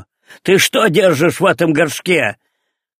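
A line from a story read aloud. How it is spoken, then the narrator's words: Rough angry shout. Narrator (Russian): грубо закричал на него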